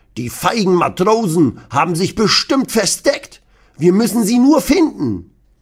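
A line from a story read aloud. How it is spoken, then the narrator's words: Blustering, loud. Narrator (German): Opa Rudi poltert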